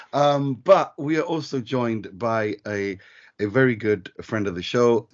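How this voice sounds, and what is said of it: Strained voice, not at full strength. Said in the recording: “my voice is not 100% today ... I was screaming along”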